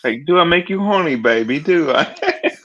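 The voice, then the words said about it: Put-on British accent, Austin Powers style. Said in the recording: “let's hear your uh, British accent ... Sounds, sounds like Austin I've heard, Powers”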